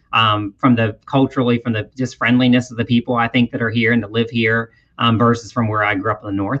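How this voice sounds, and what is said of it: Strong Southern American accent. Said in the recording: “you've got that stone cold Southern accent right down”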